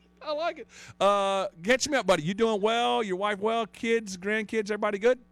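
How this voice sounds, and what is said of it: Southern American accent. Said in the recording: “the Southern accent stuff ... I'm just cutting off the end of the words”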